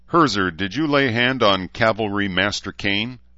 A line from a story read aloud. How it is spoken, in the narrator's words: Gunny asked coldly